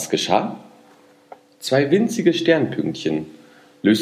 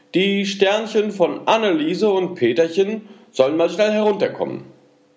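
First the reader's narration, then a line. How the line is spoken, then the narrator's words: Calling up to sky. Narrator (German): rief zum Himmel hinauf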